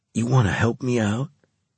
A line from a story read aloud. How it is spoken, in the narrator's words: Carlos asked quietly